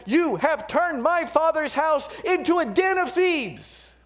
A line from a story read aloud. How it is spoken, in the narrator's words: Jesus shouts back at them